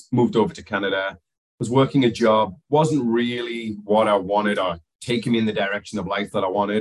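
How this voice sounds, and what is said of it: Slight accent. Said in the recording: “They're going to pick up a little accent in there.”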